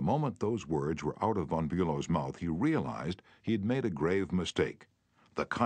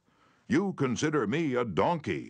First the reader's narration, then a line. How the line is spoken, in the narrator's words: he shouted